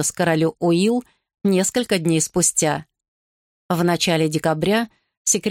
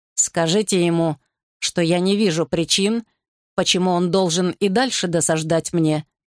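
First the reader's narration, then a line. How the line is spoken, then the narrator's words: Royal growl. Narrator (Russian): прорычал король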